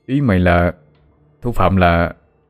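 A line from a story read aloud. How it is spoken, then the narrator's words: Stammering. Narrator (Vietnamese): mình lắp bắp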